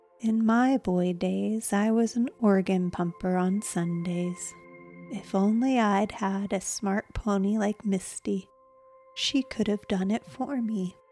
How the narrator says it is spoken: Still chuckling, he explained

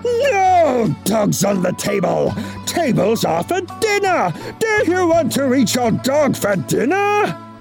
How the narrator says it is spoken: he roared

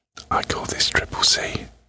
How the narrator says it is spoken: he whispered

